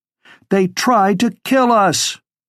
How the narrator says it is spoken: she shouted over the rest

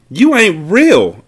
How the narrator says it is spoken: yelled

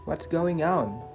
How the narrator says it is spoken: shouted

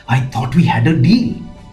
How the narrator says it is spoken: hissed

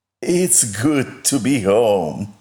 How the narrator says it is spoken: sighed

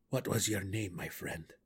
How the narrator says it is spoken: the borough warden whispered

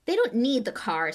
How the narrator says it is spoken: said Ron impatiently

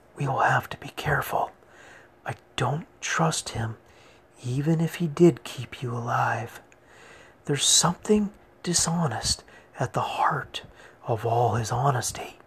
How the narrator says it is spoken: She whispered on

